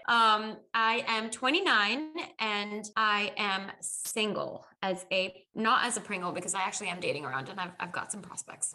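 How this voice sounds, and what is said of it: American Valley girl accent. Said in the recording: “My accent adapted to the American accent. ... I now am fully Valley girl”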